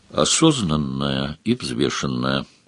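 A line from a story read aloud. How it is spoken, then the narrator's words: Plain. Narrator (Russian): сказал Сварог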